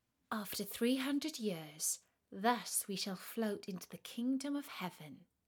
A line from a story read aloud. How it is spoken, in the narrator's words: said she